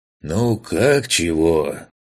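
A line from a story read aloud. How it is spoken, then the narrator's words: Sighing. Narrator (Russian): Вздохнул Лысый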